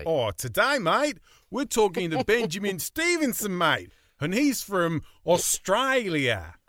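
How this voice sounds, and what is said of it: Put-on Australian accent. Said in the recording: “That's why I was doing the... Is he expecting us to do an Australian accent?”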